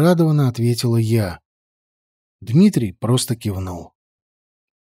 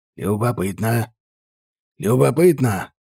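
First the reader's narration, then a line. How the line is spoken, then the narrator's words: Teacher's mutter. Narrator (Russian): Пробормотал сенсей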